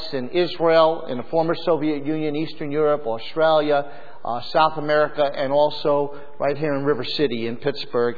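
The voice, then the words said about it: Brooklyn accent. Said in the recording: “you might detect a little bit of my accent. It's a Brooklyn accent, but it's very similar to Pittsburghese.”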